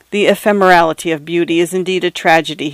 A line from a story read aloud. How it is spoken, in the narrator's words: he said